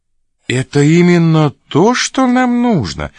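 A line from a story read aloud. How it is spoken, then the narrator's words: Joyful. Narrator (Russian): сказал радостно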